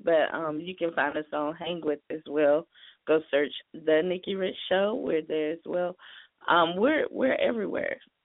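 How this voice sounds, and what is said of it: Hoarse, strained voice. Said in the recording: “my voice is kind of gone”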